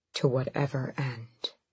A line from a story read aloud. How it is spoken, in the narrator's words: he breathed